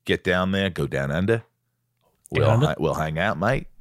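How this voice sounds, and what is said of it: Attempted Australian accent. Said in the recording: “Was that terrible? ... That's the best way I can get into the Australian accent.”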